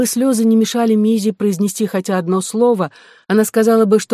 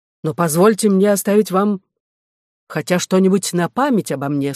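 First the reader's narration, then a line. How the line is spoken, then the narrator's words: Plain. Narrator (Russian): сказал он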